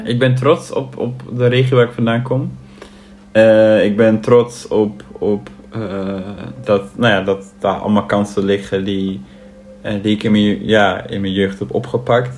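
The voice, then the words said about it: Twente regional Dutch accent. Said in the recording (Dutch): “Het accent. Dat is iets waar nog steeds niet vanaf komt.”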